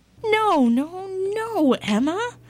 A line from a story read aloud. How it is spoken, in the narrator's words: cried the farmer's children